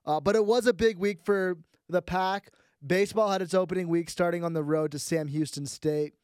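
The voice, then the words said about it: Congested, head-cold voice. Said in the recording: “apologize for my voice. I've got a bit of a head cold.”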